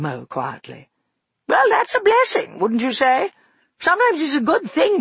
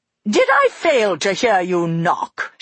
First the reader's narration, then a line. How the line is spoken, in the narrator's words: She asked, staring so angrily